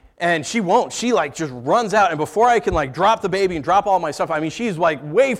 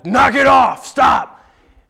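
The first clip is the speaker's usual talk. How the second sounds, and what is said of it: Stern yelling scary dad voice. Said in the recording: “I yell at her to stop ... scary dad voice ... scary dad voice”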